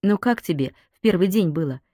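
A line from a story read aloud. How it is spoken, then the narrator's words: Casual question. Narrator (Russian): небрежным тоном спросила она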